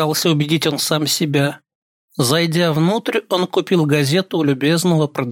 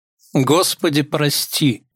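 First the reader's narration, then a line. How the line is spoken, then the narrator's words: Muttered. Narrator (Russian): пробормотал он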